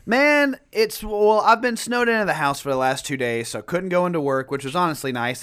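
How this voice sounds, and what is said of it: Sick-sounding voice. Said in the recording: “The fam is sick. ... You might can hear it in my voice.”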